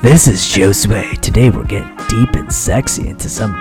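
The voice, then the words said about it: Sultry late-night radio host voice. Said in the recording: “radio voice? ... I should have a late night show, like a sexy jazz late night.”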